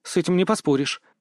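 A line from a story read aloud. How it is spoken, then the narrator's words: Muttered. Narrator (Russian): пробормотала Дел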